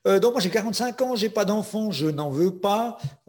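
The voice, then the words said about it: Slight Swiss French accent. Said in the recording (French): “Je suis suisse, j'ai un petit accent”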